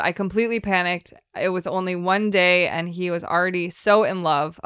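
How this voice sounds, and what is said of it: Put-on accent reading a quote. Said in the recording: “I gave her an accent.”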